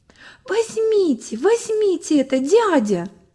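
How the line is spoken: Agitated pleading. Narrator (Russian): уговаривал взволнованно

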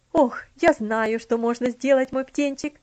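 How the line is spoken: Sudden exclamation. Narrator (Russian): Внезапно воскликнула тетушка Хлоя

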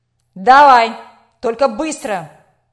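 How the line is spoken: Barking director. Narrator (Russian): рявкнул директор

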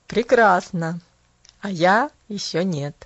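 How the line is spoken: Laughing. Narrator (Russian): засмеялся Джон Пендлтон

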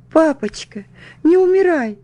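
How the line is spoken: Sobbing child. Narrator (Russian): всхлипывала я

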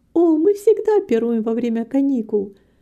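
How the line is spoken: Joyful. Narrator (Russian): радостно сказала Рита

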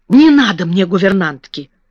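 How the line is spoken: Sharp. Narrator (Russian): резко сказала Мэри

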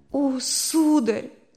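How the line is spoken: Sobbing. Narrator (Russian): отвечала рыдая

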